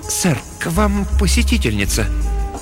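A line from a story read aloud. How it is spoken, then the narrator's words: Tense, uncertain announcement. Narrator (Russian): Ожидающий его слуга объявил напряженным, неуверенным голосом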